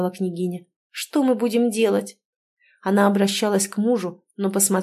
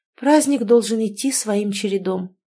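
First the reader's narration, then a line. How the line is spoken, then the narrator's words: Lifeless female voice. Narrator (Russian): безжизненным голосом ответила та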